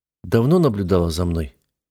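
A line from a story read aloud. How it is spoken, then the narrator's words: Gloomy question. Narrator (Russian): мрачно спросила Алиела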